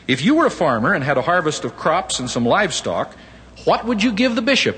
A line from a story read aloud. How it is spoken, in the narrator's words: asked